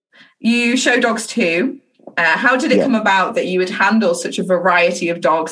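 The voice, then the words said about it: Yorkshire English accent. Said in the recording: “I love your accent... I'm from the north of England... I'm from Yorkshire specifically”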